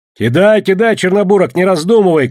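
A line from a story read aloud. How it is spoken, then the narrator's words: Shouting. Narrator (Russian): крикнул Егор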